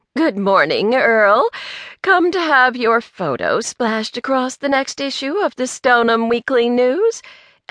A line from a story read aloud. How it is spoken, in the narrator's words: Angelica asked, her voice sickeningly sweet